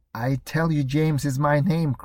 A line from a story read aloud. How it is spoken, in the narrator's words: cried the second